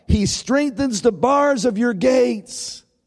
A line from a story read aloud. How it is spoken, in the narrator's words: the sopranos lifting their high notes, those soaring high notes above all the rest of the choir as they shout